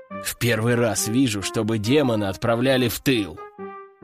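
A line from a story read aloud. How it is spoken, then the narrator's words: Hissing. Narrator (Russian): прошипел один из солдат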